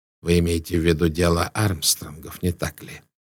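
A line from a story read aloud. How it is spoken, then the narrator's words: Calm question. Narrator (Russian): спросил Пуаро спокойно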